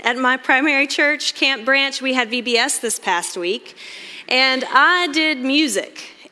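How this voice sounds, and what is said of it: Hoarse, strained, partly lost voice. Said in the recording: “excuse my voice ... almost immediately lost my voice”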